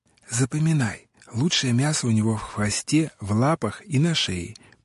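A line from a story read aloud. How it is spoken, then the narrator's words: Reverent whisper. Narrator (Russian): почтительным шепотом сказал Джон, словно находился в зоне священнодействия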